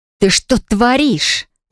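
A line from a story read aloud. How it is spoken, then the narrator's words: Hissing. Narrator (Russian): зашипела я на друга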